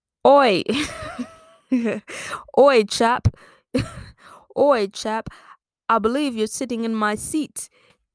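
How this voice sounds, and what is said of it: Attempted British accent. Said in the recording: “I can do a better British accent if I'm listening to British people talk... off the top of my head, it's all accents at once.”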